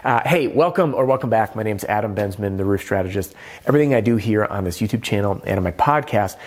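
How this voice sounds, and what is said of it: Nasal, congested voice. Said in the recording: “If I sound nasally, it's because I'm getting over a little something”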